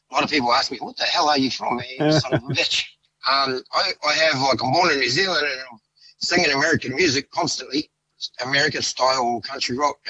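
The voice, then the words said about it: Australian accent. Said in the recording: “I got an Australian accent.”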